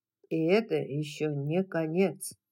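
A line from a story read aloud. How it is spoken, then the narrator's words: Plain. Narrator (Russian): сказал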